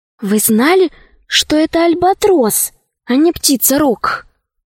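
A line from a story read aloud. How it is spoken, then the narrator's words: Whispered question. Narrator (Russian): спросила шепотом Алиса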